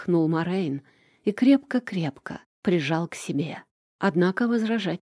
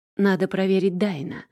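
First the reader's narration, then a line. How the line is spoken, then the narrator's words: Sighed. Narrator (Russian): вздохнул он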